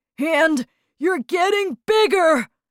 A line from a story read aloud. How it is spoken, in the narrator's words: shouted Mr